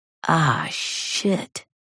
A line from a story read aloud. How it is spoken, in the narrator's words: Joey mutters